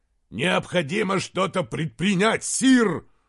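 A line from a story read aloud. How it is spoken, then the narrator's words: Roared. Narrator (Russian): взревел он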